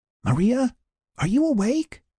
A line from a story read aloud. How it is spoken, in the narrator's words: she whispered, hoping not to wake the others